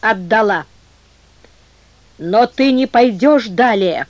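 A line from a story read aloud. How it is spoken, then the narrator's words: Muffled firm commanding voice. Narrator (Russian): произнесла Мариула глухим, но твердым повелительным голосом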